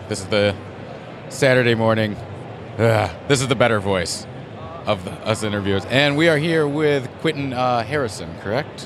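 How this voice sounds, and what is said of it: Raspy voice. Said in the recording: “My voice is raspy.”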